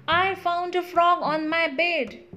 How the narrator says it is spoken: I yelled out

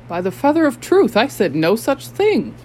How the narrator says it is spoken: gasped Nikonk

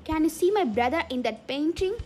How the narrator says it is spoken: He shouted

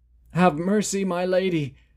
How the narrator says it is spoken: pleaded the former prince

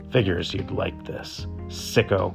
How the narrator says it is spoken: She snarled

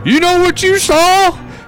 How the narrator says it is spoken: He exclaimed

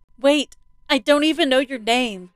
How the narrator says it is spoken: she yelled out

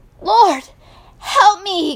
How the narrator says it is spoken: cried

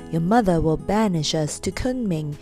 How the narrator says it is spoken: said Ama in a sad voice

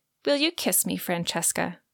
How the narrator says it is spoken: he asked again

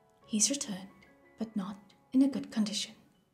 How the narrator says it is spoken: Jinwoo replied

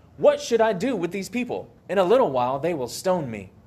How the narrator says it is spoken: Moses cried out to the Lord

